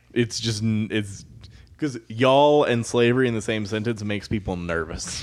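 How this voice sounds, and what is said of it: Southern American accent. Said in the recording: “because of your southern accent.”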